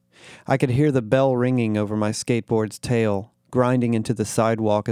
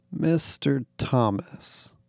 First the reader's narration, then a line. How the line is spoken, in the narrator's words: he purred, like some movie villain having finally cornered his protagonist